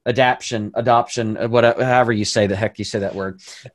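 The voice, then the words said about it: Southern American accent. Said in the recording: “Here's my southern accent coming out.”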